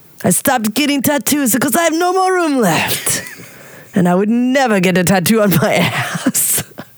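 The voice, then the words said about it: Put-on Russian accent. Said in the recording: “I love your Russian accent. ... It's so bad. ... Russian man. It's good. ... So bad. ... It's very good.”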